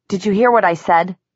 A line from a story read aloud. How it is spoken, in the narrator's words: he raised his voice